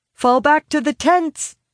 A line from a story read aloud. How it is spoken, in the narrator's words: call, shouting to the wastelanders in their tongue